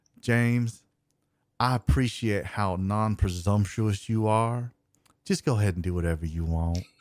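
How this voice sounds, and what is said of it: Imitates another person's voice. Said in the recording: “That was the impression I was looking for.”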